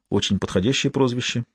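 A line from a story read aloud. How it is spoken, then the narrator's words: Whispered reply. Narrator (Russian): шепнула в ответ Сиена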